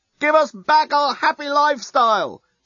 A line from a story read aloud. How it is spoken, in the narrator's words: shout the Yasican demonstrators unintelligibly